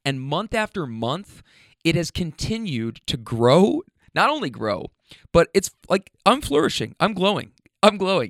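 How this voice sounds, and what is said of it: Slightly hoarse voice. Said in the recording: “my voice is a little bit hoarse ... throat lozenges”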